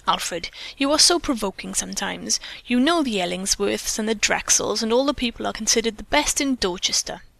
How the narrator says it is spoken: she said scathingly

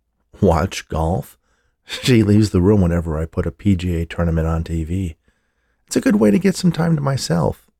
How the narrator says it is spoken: he laughed

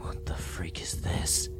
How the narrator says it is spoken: whispered

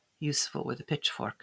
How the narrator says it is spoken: she murmured

